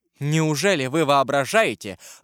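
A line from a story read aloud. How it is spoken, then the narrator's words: Bold exclamation. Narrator (Russian): воскликнула с несвойственной ей смелостью перед страшной волей своего сына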